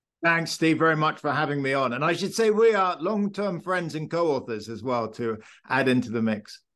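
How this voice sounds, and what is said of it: English accent. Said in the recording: “hails from England, as you might notice from his accent.”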